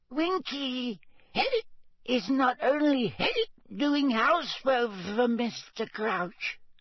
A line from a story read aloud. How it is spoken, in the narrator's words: Winky squeaked indignantly